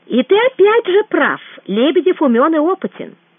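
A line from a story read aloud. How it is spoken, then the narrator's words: Calm, friendly, smiling. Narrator (Russian): спокойно продолжал Гуров, улыбаясь Кричко как лучшему другу и единомышленнику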